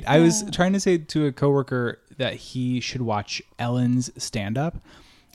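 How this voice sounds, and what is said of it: Strong Midwestern Ohio accent. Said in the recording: “I hit that podcast like really hard midwest ... do I have this strong accent? ... And yes ... reverting back to this Ohio accent”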